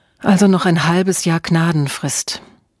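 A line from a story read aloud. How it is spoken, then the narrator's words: Sigh. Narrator (German): Emma seufzte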